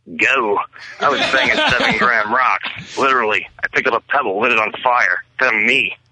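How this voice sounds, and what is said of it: Charlie Sheen impression. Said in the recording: “I think it's a good impression ... Charlie Sheen impression”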